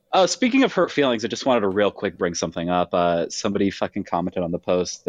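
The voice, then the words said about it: Nasal high-pitched voice, slight Midwest lisp. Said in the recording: “nasally, high-pitched, slight Midwest accent, a little bit of a lisp, not as feminine as I'd like it to sound”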